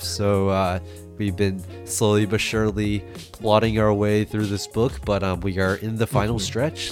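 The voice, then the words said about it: Slightly sick, weird-sounding voice. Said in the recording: “I have been a little sick, so my voice is a little weird today”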